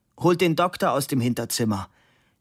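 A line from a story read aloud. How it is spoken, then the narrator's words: Called out. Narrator (German): rief die Cousine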